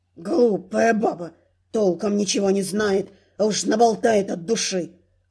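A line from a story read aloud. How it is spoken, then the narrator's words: Low growl. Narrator (Russian): рыкнул негромко Руинс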